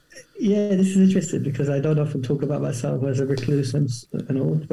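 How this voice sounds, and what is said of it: South London accent. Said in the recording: “you certainly have a London ... a South London twang to your accent.”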